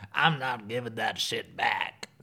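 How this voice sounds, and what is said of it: Imitates another person's voice. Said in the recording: “my Erika Jayne impersonation ... That's really great.”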